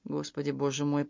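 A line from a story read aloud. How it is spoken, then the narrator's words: Muttered. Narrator (Russian): пробормотала Энни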